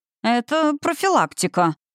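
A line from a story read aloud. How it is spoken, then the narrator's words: Unabashed squeak. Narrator (Russian): пискнул мой змеёныш, совершенно не стесняясь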